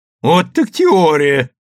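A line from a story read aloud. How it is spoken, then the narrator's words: Loud laughter. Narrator (Russian): громко расхохотался Иво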